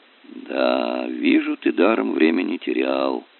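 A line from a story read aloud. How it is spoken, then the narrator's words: Father drawling. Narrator (Russian): протянул отец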